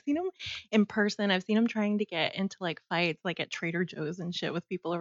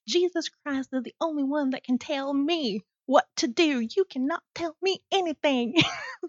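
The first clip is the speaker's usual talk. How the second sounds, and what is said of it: Put-on Texan Southern accent. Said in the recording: “that was a really good accent ... can you tell I've lived in Texas my whole life? ... I'm from the Bible Belt too”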